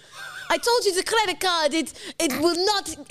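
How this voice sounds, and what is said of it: Weak put-on Italian accent. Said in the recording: “A sassy Italian bird ... Oh, now I've lost the accent ... Straight into your generic fucking accent. Straight into that generic accent you use for anyone.”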